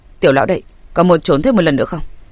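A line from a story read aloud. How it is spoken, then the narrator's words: Quiet voice. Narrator (Vietnamese): Chu Phàm không khỏi nhỏ giọng nói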